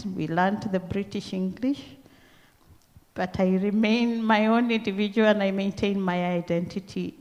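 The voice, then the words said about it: Kenyan accent. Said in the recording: “my accent, because I know I do not speak the Aussie English. I came here with my own Kenyan accent.”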